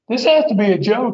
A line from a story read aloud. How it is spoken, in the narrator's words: he was still laughing, and he said